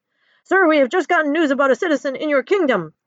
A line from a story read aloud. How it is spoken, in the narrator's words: yells the frightened peasant